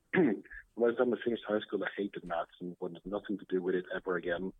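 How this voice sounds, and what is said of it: Swedish accent in English. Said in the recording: “as you might hear from my accent, I'm not from around here. I'm from Sweden”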